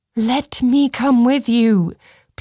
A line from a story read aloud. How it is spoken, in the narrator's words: pleaded Cressa